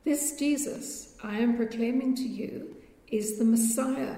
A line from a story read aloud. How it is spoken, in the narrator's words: he said